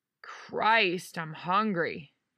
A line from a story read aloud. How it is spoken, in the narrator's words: groaned